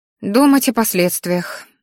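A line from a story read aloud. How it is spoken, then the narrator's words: Sighing. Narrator (Russian): вздохнула Ари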